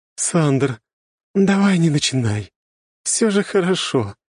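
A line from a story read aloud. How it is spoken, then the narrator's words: Moaning. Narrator (Russian): простонала темная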